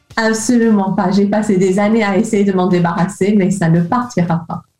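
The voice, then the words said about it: English accent speaking French. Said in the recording (French): “anglaise d'origine ... tu as gardé ce petit accent charmant ... tu es originaire de Liverpool”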